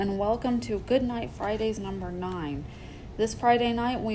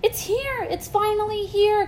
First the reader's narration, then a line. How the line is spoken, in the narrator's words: cried Twilight